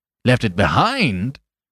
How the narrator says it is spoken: repeated Flambeau, and for the first time there was another note in his voice beside his triumph

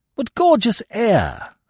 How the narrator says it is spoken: I exclaimed

